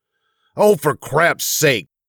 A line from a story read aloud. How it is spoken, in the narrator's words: he cried